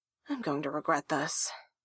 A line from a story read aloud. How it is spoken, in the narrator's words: Haruhi sighed to herself